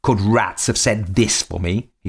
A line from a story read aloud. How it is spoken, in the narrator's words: he shouted